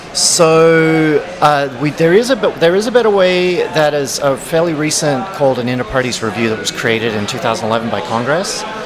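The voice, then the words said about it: Mumbly Australian accent. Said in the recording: “my kind of mumbly Australian accent”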